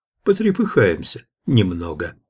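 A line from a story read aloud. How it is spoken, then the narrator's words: Calm reply. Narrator (Russian): спокойно ответил Иван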